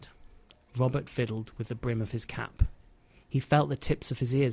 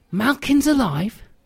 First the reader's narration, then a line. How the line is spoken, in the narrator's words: Lily exclaimed